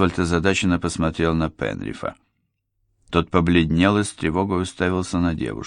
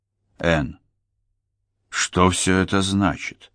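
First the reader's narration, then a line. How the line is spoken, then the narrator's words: Plain. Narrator (Russian): спросил он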